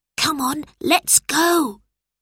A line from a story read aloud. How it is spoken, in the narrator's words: whispered Robert